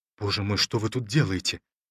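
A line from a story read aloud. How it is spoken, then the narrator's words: Frightened question. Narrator (Russian): спросил Ромашов испуганно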